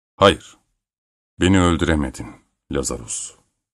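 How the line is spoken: Firm voice. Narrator (Turkish): dedi kararlı bir sesle

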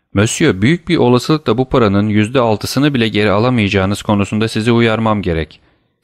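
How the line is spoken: Plain. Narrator (Turkish): dedi

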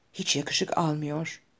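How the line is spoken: Whispered. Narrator (Turkish): diye fısıldadı

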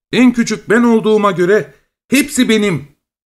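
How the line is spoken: Shouting. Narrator (Turkish): diye haykırmış

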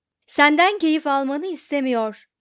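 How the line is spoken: Shouting. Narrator (Turkish): diye bağırdı

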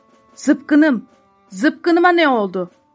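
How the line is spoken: Shouting. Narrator (Turkish): diye bağırdı

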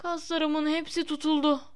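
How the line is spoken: Groaned. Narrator (Turkish): diye inledi

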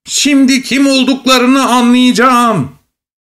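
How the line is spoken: Shouting. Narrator (Turkish): diye bağırıyordu

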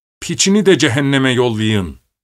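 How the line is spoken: Crying out. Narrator (Turkish): diye haykırdı

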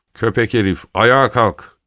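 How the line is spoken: Shouting. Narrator (Turkish): diye bağırdı

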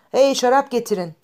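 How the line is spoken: Shouted. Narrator (Turkish): diye bağırdı

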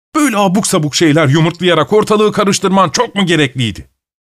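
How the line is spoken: Shouting. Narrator (Turkish): diye bağırdı

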